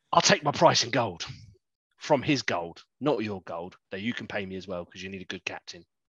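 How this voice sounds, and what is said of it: Sore throat, strained attempted accent. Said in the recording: “So I've got really sore throat tonight, guys. I'm trying my accent, but it's not working.”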